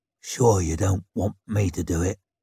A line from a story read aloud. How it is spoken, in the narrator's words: He asked in that husky whisper